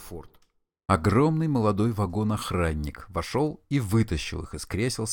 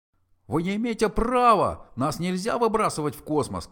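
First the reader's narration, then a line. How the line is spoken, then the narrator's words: Shouting. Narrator (Russian): кричал Форд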